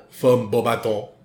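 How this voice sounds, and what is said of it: Put-on foreign accent. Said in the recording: “Good job on the accent.”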